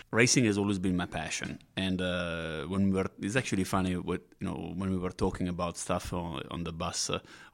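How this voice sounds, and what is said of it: Non-local foreign accent. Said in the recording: “as you can hear from my accent, I'm not local”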